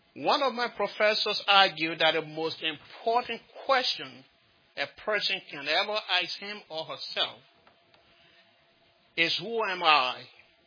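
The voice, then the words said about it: Slight Liberian accent. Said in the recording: “the little accent in me. I originally come from Africa, from a small country called Liberia.”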